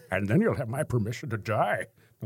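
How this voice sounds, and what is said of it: Bane impression. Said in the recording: “Well, that's a horrible bane. ... That wasn't too bad.”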